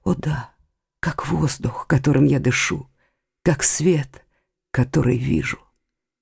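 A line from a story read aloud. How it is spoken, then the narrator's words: Barely audible whisper. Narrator (Russian): Едва заметно шевеля губами, он прошептал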